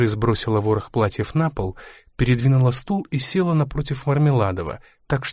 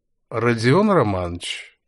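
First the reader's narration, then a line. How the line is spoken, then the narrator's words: Drunken prompting voice. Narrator (Russian): подсказал Мармеладов все еще хмельным голосом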